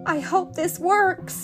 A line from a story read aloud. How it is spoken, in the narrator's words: gasped Ariel